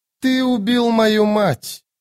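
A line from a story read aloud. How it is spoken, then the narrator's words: Melodious proud voice. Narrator (Russian): сказала Настер мелодичным голосом, гордо подняв голову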